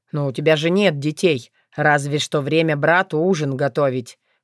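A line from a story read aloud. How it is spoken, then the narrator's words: Snorting. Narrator (Russian): хмыкнул он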